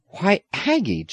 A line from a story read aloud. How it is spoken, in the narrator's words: James exclaimed in astonishment